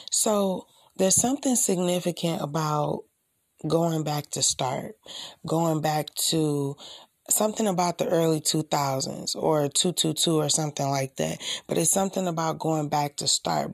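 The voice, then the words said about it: Soft, near-whispered late-night voice. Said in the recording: “excuse me if I sound like I'm whispering a little bit”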